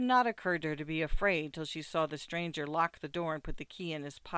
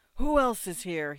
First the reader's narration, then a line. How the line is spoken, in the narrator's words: he demanded in a husky voice